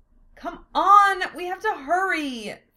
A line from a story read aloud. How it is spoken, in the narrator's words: Philia begged, then demanded